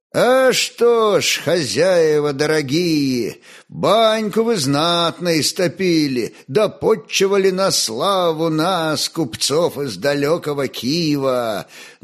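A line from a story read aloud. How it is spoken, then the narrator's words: Sing-song. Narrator (Russian): Нараспев начал Сивер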